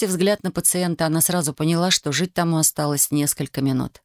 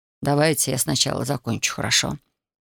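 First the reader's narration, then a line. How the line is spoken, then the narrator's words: Quiet. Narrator (Russian): Татьяна тихо произнесла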